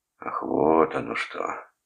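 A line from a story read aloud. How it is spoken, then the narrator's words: Drawled. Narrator (Russian): протянул Вилли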